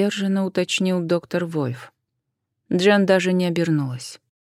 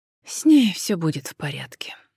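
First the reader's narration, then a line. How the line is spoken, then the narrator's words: Sighed. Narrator (Russian): вздохнула Джен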